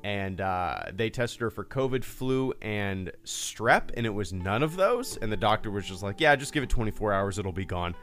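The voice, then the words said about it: Slightly congested voice with a cold. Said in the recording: “I don't know if you can tell it in my voice. I got a little bit of a cold.”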